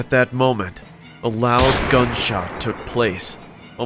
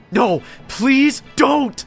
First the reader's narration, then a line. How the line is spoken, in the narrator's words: I screamed at the top of my lungs